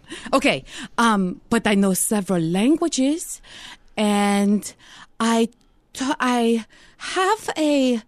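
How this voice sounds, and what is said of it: Imitated accent, somewhat Spanish-sounding. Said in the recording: “I didn't even know how to do this accent ... you went Spanish a little bit”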